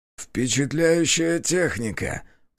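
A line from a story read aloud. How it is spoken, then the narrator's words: Creaky voice. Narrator (Russian): проскрипел он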